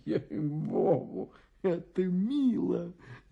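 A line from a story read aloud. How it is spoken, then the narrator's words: Whispering. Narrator (Russian): зашептал фон Пах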